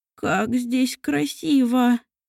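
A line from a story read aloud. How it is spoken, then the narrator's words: Trembling old voice. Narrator (Russian): дрожащим голосом произнес старый аптекарь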